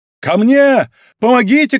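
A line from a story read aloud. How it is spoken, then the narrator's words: Shouting. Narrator (Russian): кричал Д'Артаньян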